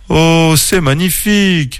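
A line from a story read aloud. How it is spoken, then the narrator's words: Exclaimed in wonder. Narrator (French): s'écria Clément, ses yeux brillants d'émerveillement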